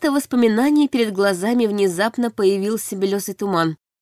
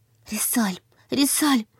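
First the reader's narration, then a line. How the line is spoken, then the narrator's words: Frightened repeating. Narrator (Russian): твердила испуганно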